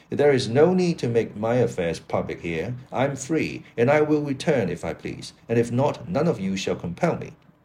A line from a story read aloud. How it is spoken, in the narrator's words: Don Luis exclaimed